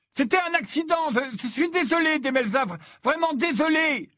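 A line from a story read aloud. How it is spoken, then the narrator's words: Shouting. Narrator (French): lui cria Ron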